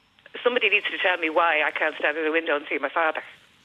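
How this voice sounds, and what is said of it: Emotional, upset voice. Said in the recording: “Getting a bit emotional now”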